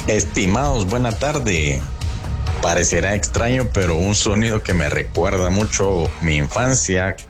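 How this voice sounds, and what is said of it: Radio announcer's voice. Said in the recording (Spanish): “Usted tiene voz de locutor.”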